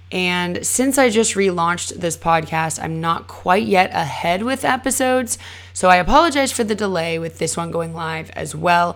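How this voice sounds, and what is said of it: Slightly scratchy voice. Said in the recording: “under the weather. My voice is still a little bit scratchy.”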